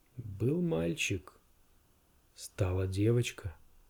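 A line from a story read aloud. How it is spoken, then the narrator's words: Quiet. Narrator (Russian): тихо произнес он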